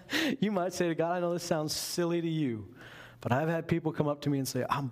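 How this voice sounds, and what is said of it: Usual voice. Nothing is said of it.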